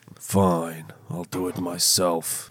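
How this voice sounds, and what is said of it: Imitates a movie villain's voice. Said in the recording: “What was that accent? ... That's what Thanos says.”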